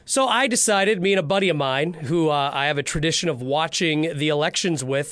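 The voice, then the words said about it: Strained, hoarse sick voice. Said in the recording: “if you hear me struggling over here ... lost my voice. I've been sick. So if I sound like a Jim Henson Muppet”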